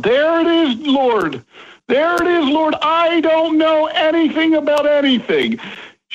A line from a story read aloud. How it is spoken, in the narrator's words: yell out